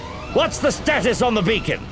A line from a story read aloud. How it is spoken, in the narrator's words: Master Sun shouted into the comlink